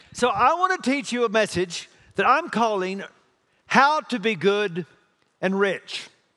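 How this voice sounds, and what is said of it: Texas accent. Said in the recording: “This is a Texas accent, okay? It's all I've got.”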